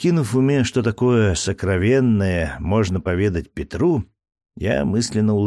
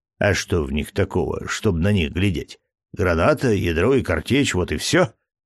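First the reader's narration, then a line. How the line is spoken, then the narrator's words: Scoffing snort. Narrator (Russian): хмыкнул Петр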